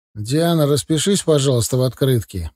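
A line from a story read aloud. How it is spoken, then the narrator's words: Neutral request. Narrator (Russian): попросил он ее нейтральным тоном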